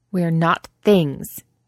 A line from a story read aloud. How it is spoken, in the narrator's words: Angharad said bitterly, again and again